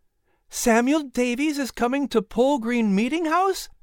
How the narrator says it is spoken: Sarah exclaimed

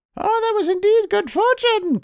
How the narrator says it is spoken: cried they

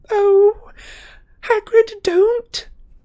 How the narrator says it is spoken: moaned Hermione

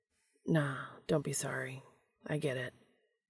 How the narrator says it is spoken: he whispered

